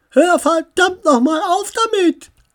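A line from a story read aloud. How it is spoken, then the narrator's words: Shouting. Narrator (German): schrie Samantha das Nashorn an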